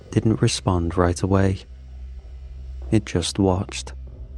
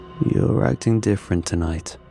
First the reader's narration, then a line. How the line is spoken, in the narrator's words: murmured